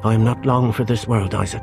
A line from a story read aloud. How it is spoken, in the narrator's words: she said